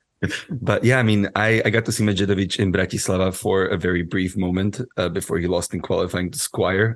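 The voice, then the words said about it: Strained, hoarse voice. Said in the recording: “I've been to two football matches within the past 4 days, which is why my voice is a bit different today.”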